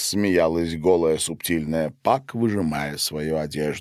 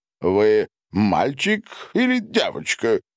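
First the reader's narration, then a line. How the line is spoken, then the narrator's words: Jolting bouncing question. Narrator (Russian): спросил ее прыгающий на ягодицах по камням Дональд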